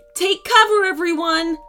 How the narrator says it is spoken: shouted Warrior Woman

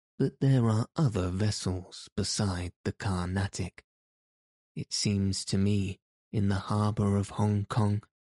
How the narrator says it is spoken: Fogg say, in his placid voice

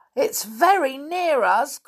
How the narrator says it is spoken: cried Molly

